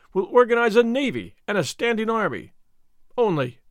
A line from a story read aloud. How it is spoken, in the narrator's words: he cried in free enthusiasm